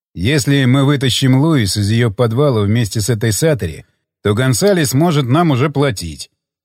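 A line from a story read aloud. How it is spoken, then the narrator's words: Neutral voice. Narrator (Russian): сказал Джефф нейтральным голосом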